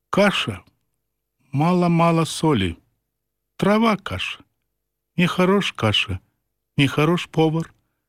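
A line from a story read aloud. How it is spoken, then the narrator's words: Quiet, indifferent tone. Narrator (Belarusian): ён ранейшым ціхавата-абыякавым тонам кажа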